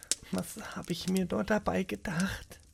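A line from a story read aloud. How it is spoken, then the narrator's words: Quiet murmur. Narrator (German): murmelte sie leise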